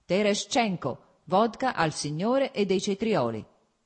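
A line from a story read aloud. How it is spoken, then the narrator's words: Self-satisfied shout. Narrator (Italian): gridò, evidentemente compiaciuto ad ascoltare la propria voce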